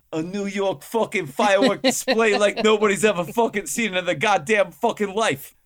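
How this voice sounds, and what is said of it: Put-on movie-style New York accent. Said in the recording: “that sounds Boston ... I didn't grow up in New York City. The Buffalo accent's different. I can only do what I heard from movies.”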